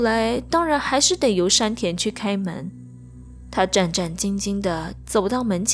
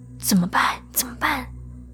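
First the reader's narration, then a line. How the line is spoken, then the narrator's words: Whispering to each other. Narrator (Chinese): 小声的互相问说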